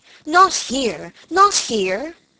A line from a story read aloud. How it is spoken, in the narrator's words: he cried vehemently